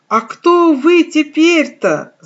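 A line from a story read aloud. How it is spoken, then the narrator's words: Belated shout after someone. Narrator (Russian): запоздало крикнул он ей вслед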